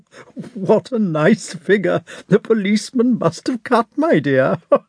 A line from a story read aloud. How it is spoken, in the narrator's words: shouted the Count, dying with laughter